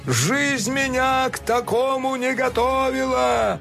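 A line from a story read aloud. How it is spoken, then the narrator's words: Howling. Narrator (Russian): взвыл Винилион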